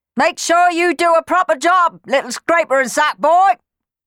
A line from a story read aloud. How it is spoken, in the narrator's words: yelled Clem